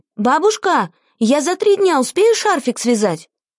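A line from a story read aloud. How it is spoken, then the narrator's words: Loud shouting. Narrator (Russian): Антонида стала громко кричать бабушке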